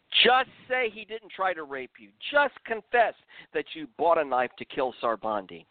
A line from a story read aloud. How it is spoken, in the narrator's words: One of the tall, muscular interrogators screamed